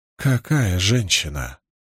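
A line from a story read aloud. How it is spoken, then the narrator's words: Breathless. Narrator (Russian): выдохнула Фелия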